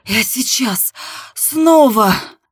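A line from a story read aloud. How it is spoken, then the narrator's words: Hoarse rasp. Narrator (Russian): прохрипела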